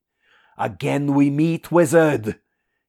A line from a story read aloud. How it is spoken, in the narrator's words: he grinned savagely